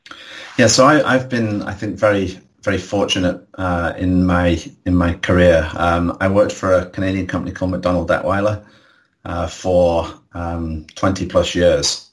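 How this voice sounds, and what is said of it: English accent. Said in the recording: “I can tell from your accent that's not in Alabama”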